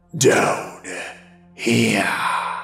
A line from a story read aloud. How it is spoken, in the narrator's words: It came from under the bridge and said in a horrid whisper